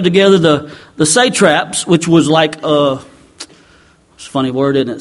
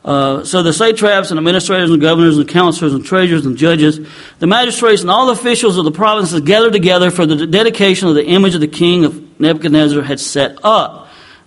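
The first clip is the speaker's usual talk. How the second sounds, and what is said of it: Reads the list very fast. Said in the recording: “I'm going to say this fast”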